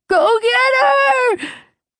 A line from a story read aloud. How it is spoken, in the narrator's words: he screamed